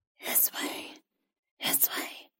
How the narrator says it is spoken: it rasped

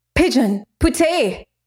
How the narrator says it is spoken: exclaimed

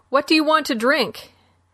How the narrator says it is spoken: Boone shouted

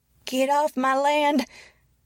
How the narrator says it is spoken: shouted the woman, her voice old and shrill

